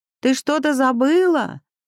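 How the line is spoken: Calling out. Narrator (Russian): крикнула Тася в коридор

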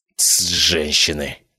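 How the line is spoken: Grumbling. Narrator (Russian): проворчал я

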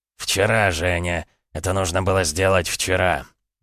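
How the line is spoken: Muttering. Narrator (Russian): пробормотал Томаш

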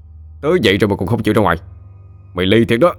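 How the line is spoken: Roaring. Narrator (Vietnamese): Khá gầm lên

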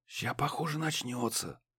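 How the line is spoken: Whispered. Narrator (Russian): прошептал Муха

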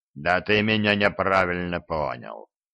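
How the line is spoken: Giant's good-natured boom. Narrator (Russian): добродушно прогудел гигант

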